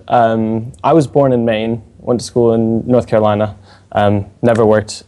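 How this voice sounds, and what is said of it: American accent with British influence. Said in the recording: “my ever worsening accent ... not nearly long enough for this accent”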